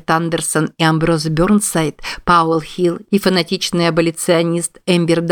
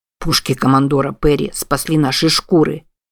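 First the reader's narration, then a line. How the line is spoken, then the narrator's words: Grumbling. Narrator (Russian): проворчал Плейс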